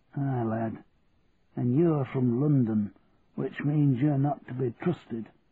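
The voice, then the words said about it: Yorkshire accent. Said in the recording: “You're from Yorkshire, aren't you? ... I know that accent anywhere.”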